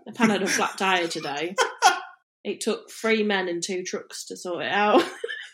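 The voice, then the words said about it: Northern English accent. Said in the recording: “Since I called you on your accent slipping last week, you have gone so northern.”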